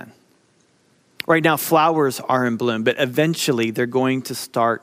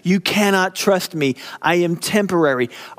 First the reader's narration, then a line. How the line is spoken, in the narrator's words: Beauty is screaming at us